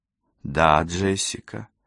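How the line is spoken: Tender reply. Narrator (Russian): ласково отозвалась Розалинда

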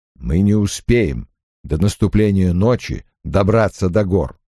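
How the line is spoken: Plain. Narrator (Russian): сказал Лан

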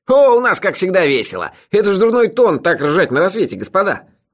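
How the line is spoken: Sleepy grumble. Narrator (Russian): проворчал заспанный Мелифара

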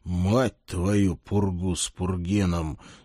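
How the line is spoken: Exhaled through teeth. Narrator (Russian): сквозь зубы выдохнул я

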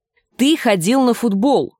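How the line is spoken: Snapped. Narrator (Russian): огрызнулась Гленда

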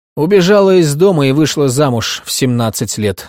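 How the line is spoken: Dry. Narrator (Russian): сухо произнесла миссис Ханикот

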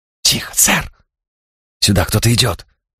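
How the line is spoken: Urgent whisper. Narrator (Russian): шепот Марка

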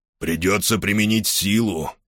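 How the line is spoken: Hoarse. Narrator (Russian): хрипло сказал офицер своим людям

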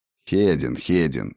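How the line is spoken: Sarcastic jab. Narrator (Russian): Язвительно бросил познавший тьму

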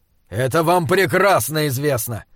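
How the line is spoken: Growled. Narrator (Russian): зарычал Джошуа

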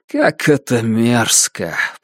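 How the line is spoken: Grumbled. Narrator (Russian): проворчал Бенгт

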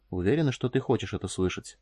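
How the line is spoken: Quiet question. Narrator (Russian): спросил Фаркосиган тихо

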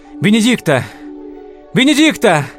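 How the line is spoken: Shouting at full voice. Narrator (Russian): закричал я во весь голос

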